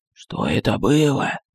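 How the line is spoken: Whispered question. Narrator (Russian): Шепотом спросил адмирал

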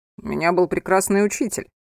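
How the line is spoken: Laughing. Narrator (Russian): засмеялся Анхель

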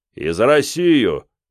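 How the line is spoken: Deep bass voice. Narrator (Russian): пробасил маэстро

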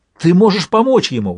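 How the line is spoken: Hopeful exclamation. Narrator (Russian): воскликнула Этта обнадеженно

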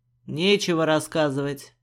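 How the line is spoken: Snapping back. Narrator (Russian): огрызнулся Черный

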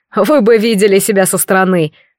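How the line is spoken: Laughing. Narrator (Russian): сквозь смех произнес он

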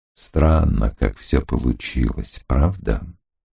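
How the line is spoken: Low, flat voice. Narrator (Russian): спросил он низким, бесцветным голосом

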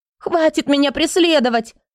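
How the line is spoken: Cracking, desperate shout. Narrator (Russian): Ломким, срывающимся голосом крикнула Эрика, убедившись, что сбежать не удастся

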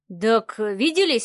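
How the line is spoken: Snorting grunt. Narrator (Russian): хмыкнул Леха

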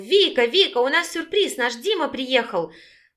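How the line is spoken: Impatient shout. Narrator (Russian): Егорка нетерпеливо выкрикнул

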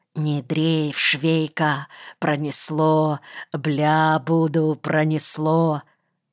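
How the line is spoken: Whisper. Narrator (Russian): Сзади мне шептали

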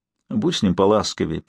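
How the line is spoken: Whisper in ear. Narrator (Russian): прошептала ей на ухо

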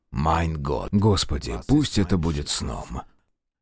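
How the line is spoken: Quiet pleading. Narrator (Russian): Тихо взмолился Белецкий

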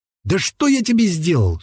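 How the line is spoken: Exasperated exclamation. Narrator (Russian): в сердцах воскликнул Матвей

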